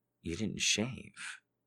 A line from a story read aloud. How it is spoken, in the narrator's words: she said softly